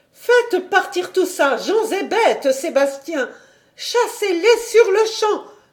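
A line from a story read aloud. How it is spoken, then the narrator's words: Exclaimed. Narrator (French): s'écria-t-elle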